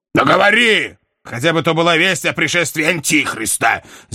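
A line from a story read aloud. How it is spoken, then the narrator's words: Shouted. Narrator (Russian): закричал герцог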